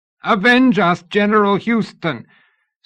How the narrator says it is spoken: Sybil shrieked, her throat constricted with stage fright

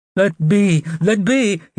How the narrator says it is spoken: he screamed aloud

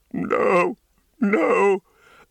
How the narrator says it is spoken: crouched down sobbing

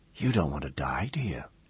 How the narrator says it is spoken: He said in a low voice

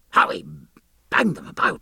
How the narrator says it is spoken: murmured Sir James

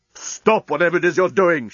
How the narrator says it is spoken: shouted Leovinus

